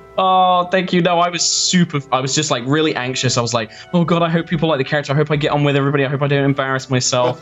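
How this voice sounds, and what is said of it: New Zealand accent. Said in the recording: “that sweet Kiwi accent”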